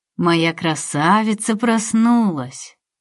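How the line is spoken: Beaming, affectionate scolding. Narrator (Russian): Просияла она и ласково пожурила

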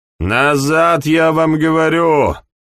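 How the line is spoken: Barked. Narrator (Russian): Рявкнул он, когда слуга замялся

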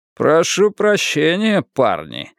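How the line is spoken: Mocking. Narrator (Russian): издевательским тоном заметил Донован

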